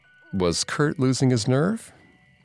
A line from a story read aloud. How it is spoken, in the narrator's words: Kurt laughed